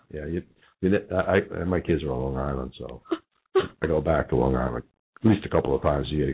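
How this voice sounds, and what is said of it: New York accent. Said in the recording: “You can't tell from my accent. I grew up in New York on 33rd and 3rd.”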